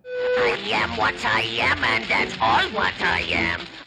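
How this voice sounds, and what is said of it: Cartoon sailor character voice. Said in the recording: “doing a Popeye impression”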